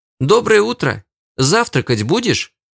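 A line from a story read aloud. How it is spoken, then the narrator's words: Cheerful girl's voice nearby. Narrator (Russian): Весело прозвучало где-то недалеко, приятный девичий голосок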